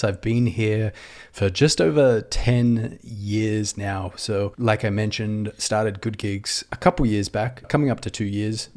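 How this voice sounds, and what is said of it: Australian accent. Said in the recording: “if you can pick up the accent, I'm an Aussie”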